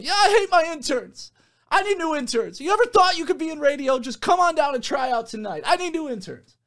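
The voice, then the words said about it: Screaming, high-energy radio DJ impression. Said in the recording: “he's just like screaming ... this is my Tic Tac impression ... He's tons of energy, just nonstop”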